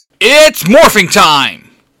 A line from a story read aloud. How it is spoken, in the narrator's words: Jason yells